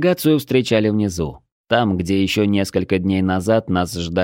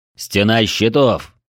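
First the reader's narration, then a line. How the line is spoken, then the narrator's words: Menacing bellow. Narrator (Russian): грозно гаркнул Дрой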